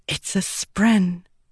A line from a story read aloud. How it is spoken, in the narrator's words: Shallan whispered